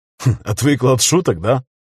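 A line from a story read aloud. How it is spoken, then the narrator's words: Laughing. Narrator (Russian): засмеялся Костя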